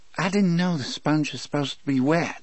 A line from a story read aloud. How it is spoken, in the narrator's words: Percy said in a faint mechanical voice